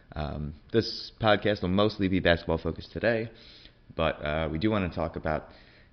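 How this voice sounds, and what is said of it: Sick, unwell-sounding voice. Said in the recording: “I sound weird, I am under the weather”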